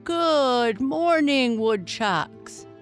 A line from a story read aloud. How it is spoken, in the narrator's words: boomed Principal Burke